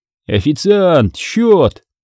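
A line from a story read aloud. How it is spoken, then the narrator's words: Shout. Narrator (Russian): выкрикнул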